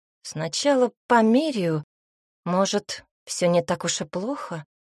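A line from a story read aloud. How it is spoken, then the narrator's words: Uncertain reply. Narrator (Russian): Неуверенно ответила Анна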